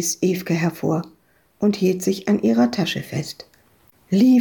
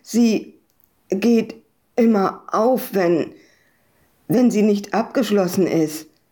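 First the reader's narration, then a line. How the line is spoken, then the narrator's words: Stammering, male. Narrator (German): stotterte er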